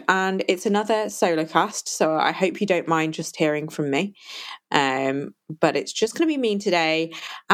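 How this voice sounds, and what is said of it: Non-American English accent. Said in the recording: “as you can probably tell from my accent, I am not American”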